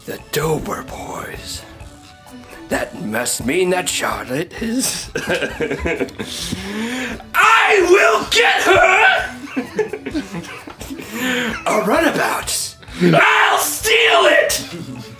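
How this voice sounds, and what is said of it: Impersonation of cartoon character Dan Backslide. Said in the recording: “impersonate what's his face? ... Dan Backslide”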